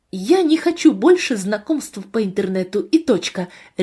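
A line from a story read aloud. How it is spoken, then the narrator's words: Sharp reply. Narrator (Russian): резко ответила я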